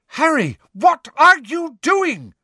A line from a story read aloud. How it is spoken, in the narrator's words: screamed Angelina